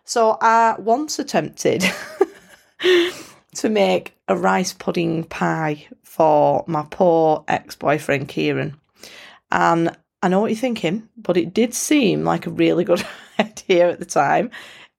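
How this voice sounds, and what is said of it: Bolton accent. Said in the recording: “the Bolton accent”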